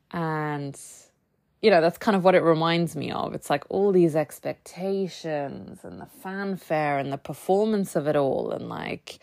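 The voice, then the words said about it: American accent. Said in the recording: “Sorry for all of the American accent today.”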